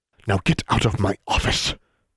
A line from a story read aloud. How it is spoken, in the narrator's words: she hissed